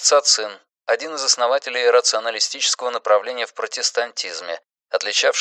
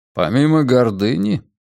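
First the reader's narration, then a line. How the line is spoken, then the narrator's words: Calm. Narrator (Russian): спокойно отозвался Дюре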